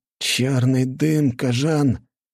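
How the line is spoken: Muffled, doomed soldier's voice. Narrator (Russian): голос бойца звучал глухо и обреченно

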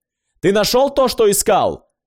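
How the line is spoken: Loud question. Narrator (Russian): спросил Фолсом все так же громко

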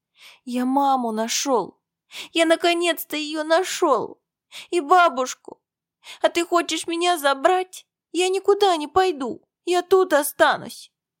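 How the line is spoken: Sobbing child. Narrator (Russian): разрыдался

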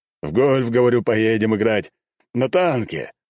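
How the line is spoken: Emperor exclaiming. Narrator (Russian): воскликнул император

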